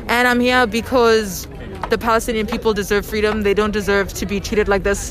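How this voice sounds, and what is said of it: South African accent. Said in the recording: “You have an accent. Where's your accent? ... I grew up in South Africa.”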